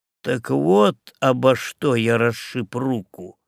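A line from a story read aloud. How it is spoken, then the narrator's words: Slow. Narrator (Russian): медленно произнес Добс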